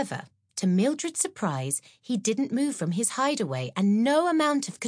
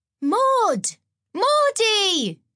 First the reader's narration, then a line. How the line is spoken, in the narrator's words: yelled, delighted to see her best friend